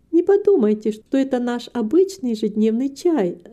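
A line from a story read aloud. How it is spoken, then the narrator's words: Laughing. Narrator (Russian): засмеялась Рита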